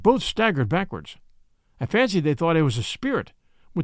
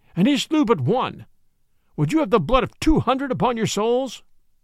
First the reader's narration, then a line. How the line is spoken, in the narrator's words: I cried